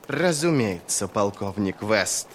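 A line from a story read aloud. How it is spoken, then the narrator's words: Contemptuous, through gritted teeth. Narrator (Russian): Крой процедил имя так, словно наносит смертельное оскорбление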